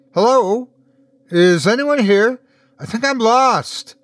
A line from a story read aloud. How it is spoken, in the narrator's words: she shouted as she ran